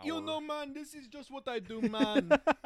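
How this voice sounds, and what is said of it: Imitated Jamaican accent. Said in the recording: “He's talking in a Jamaican accent”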